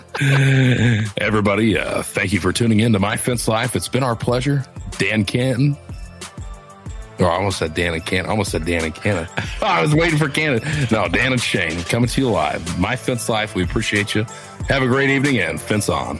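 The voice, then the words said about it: Radio announcer voice. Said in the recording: “that radio voice ... that radio voice you got going”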